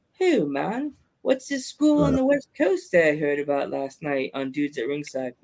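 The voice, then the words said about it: Bad put-on British accent. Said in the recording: “That was the worst accent I've ever heard before. ... As I'm looking at the British flag as I'm doing that.”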